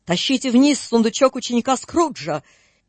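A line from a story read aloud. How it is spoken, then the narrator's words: Menacing booming shout. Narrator (Russian): чей-то грозный голос закричал гулко на всю прихожую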